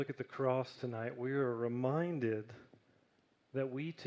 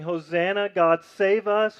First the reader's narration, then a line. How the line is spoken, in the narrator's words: were now shouting